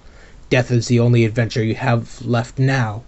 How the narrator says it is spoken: Hook spat

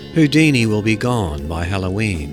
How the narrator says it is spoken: said

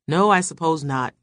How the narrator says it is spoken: he answered, but his voice held no conviction

